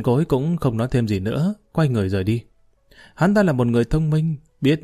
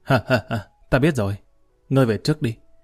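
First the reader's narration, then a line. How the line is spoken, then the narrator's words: Sudden hearty laughter. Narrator (Vietnamese): Lý Kỳ bỗng bật cười ha hả nói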